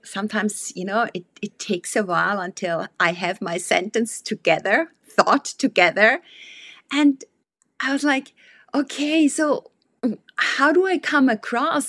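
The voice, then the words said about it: Non-native English accent. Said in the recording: “English is not my mother tongue ... a real nice accent that you have. And these quirks and this kind of mispronunciations”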